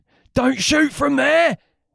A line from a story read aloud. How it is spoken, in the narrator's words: he shouted